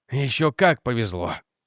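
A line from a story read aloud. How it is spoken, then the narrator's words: Angry mutter. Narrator (Russian): сердито буркнул Реджи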